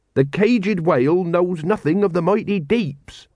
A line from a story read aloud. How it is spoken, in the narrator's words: he said